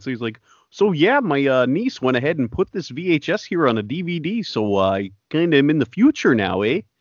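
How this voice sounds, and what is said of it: Put-on Canadian accent. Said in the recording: “I can't do a French accent. I'll give him a Canadian one.”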